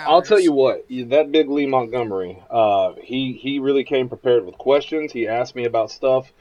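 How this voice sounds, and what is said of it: Voice sounding a little off. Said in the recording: “my voice sounds a little bit off today ... I did a four-hour podcast last night”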